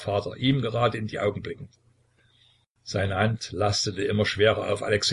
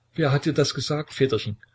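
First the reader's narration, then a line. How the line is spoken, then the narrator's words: Tsarevich stammering. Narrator (German): stammelte der Zarewitsch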